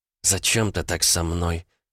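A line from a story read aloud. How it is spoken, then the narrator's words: Trembling voice. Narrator (Russian): спросила Каталин дрожащим голосом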